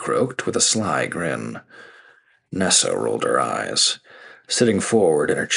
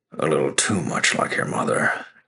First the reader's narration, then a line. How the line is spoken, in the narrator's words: Kent grumbled